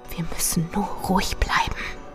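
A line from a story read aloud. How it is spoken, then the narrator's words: Whispered. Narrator (German): flüsterte ich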